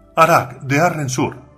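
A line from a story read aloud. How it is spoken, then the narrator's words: Crier shouting. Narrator (Spanish): gritó la voceadora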